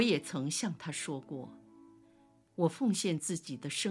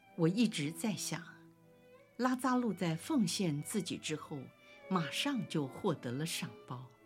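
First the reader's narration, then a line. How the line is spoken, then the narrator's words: Sighing. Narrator (Chinese): 热忱者西满也叹息地说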